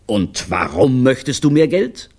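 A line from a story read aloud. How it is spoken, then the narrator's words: Terrifying roar. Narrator (German): Er brüllte so, dass der arme Olivio fast in Ohnmacht fiel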